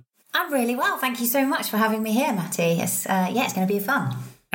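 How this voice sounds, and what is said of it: British accent. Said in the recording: “your lovely British accent. It's such a refreshing accent to have on the show”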